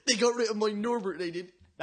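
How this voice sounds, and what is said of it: Poor Hagrid impression. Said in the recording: “it's still the worst Hagrid impression.”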